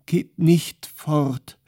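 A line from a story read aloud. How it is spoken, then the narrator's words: Sobbing. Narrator (German): schluchzte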